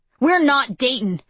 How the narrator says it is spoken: I yell back

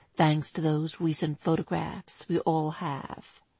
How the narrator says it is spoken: he murmured silkily

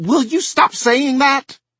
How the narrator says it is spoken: She screamed suddenly

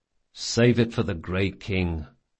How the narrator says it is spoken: muttered Locke

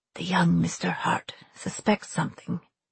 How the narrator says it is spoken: he whispered

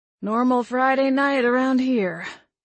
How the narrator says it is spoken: he said, groaning

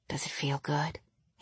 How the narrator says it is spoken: he whispered

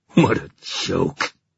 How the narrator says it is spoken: he said savagely

